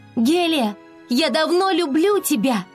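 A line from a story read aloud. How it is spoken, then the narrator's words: Resolute shout. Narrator (Russian): Флора наконец решилась и прокричала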